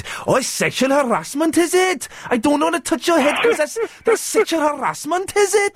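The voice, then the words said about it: Put-on Welsh accent. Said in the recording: “what's the Welsh accent go?”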